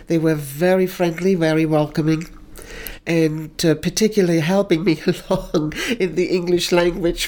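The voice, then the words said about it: Lovely foreign accent in English. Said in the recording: “your accent is lovely”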